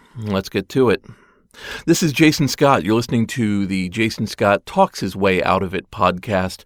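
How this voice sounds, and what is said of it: Slightly scratchy voice. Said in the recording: “I'm not sounding exactly like myself. I was sick a couple weeks ago ... a little bit of scratchiness still there ... weird voice.”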